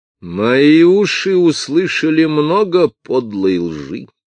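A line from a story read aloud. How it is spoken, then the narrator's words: Menacing shout. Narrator (Russian): крикнул воин Теттон таким грозным голосом, что все, даже индейцы, содрогнулись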